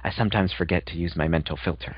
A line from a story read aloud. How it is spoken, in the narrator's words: whispered